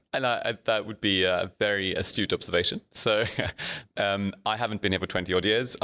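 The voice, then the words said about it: Mixed Zimbabwean, Afrikaans, Oxford English accent. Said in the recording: “all over the place ... it's a bit all over the place. There's a bit of Zimbabwean. There's a bit of Afrikaans. There's a little bit of Oxford English. You sound a little bit closer to the Thames, maybe than Sydney”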